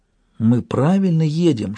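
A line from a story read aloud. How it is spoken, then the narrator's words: Whispered question. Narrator (Russian): шепотом спросила я Шун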